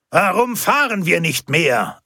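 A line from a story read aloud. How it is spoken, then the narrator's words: Angry shout. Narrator (German): rief aufgebracht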